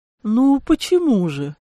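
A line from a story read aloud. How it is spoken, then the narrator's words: Hoarse drawl. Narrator (Russian): хрипло протянул мужчина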